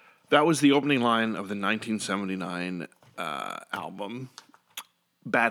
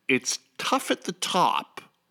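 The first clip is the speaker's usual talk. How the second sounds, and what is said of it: Put-on British accent. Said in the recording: “in a British accent”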